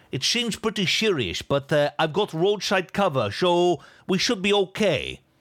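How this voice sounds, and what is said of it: Exaggerated Dutch accent. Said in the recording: “the half-Dutch man in an accent that was not even close to being as thick as what I just attempted to do there... My impression”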